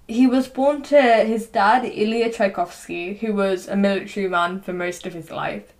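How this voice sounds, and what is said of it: English accent. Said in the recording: “my English accent whilst I'm saying Russian stuff”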